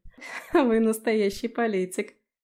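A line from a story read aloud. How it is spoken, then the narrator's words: Laughing. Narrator (Russian): рассмеялась я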